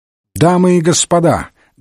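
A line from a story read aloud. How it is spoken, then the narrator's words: Loud speech. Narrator (Russian): громко произнес Мейсон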